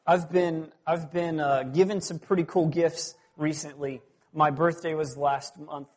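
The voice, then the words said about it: Southern US accent. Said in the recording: “If you haven't picked up a little bit of the accent yet, I am originally from South... I mean like the Deep South. I am from just outside of Atlanta, Georgia.”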